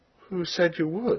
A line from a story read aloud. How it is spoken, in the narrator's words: he asked somewhat feebly, but in self-defense